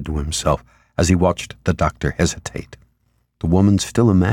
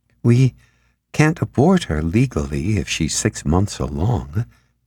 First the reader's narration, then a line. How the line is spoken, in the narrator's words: the doctor said hesitantly